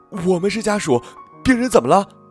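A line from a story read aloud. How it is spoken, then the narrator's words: Breathless women. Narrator (Chinese): 两个女人，气喘吁吁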